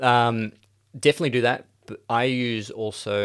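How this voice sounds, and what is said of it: Usual voice. Nothing is said of it.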